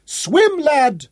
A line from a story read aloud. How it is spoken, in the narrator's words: Hal shouted